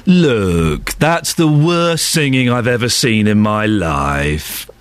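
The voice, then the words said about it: Imitates another person's voice. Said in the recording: “Simon Cowell”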